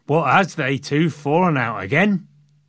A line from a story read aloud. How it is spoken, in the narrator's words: probably in a Yorkshire accent